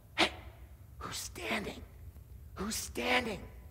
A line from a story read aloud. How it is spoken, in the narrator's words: People are whispering to one another